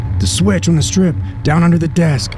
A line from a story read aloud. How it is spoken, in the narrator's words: Jamie Lynn yelled